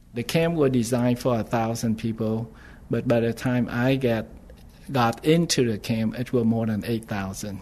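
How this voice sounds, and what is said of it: Heavy non-native English accent. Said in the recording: “I have a heavy accent. The reason for that was I learned English when I was at the age of 22.”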